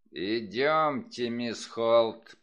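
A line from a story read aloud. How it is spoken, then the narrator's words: Growl. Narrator (Russian): прорычал Крэмер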